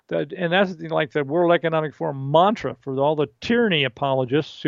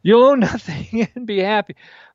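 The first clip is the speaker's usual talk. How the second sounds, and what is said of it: Weak put-on German accent. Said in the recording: “That's not a good German accent”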